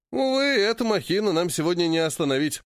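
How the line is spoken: Sad sigh. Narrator (Russian): С печалью вздохнул Порт

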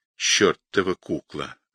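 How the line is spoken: Muttered through teeth. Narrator (Russian): пробормотал сквозь зубы Кузьмин

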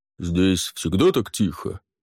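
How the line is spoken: Deep bass. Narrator (Russian): пробасил Барниш

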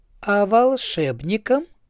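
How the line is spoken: Sweet, smiling retort. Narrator (Russian): улыбнувшись, сладким голосом парировала Канина

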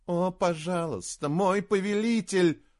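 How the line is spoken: Pleading jester. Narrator (Russian): взмолился шут

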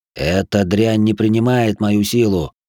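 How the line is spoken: Hoarse rasp. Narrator (Russian): прохрипел

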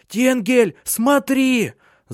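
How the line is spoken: Shout. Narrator (Russian): закричала она

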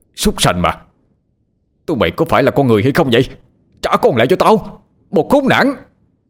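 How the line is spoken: Roaring. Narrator (Vietnamese): Ông gầm lên

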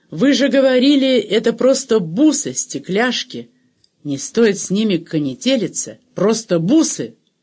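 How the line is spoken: Choking, sobbing shout. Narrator (Russian): Рик задыхаясь, давясь слезами, он выкрикнул

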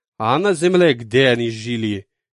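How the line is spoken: Snide question. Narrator (Russian): ехидно спросил Назариан

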